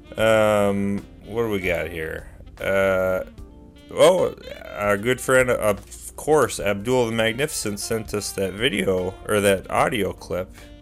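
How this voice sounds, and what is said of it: Sniffly congested, lower voice. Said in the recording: “A little sniffly this week. Does my voice sound lower? Barry White-esque? Sultry? Impressively masculine?”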